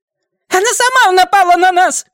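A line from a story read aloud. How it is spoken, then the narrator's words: Shrill shriek. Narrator (Russian): взвизгнула Джорджия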